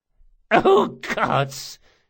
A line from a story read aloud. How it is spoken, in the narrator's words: she gasped